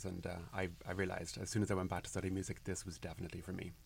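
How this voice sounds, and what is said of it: Irish accent. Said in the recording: “such a unique accent ... Cork in Ireland”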